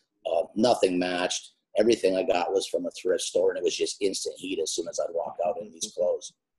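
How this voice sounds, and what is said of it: Yooper Upper Michigan accent. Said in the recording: “I still have my accent, but at the time, my Yooper accent being from the Upper Peninsula of Michigan”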